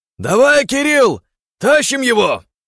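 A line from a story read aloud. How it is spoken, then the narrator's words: Shouted. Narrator (Russian): прокричал я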